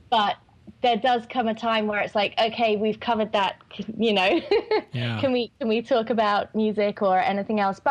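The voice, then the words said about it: English accent. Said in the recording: “you Americans get so jazzed up by our British accents ... I'm actually one of the few English people that sing with an English accent”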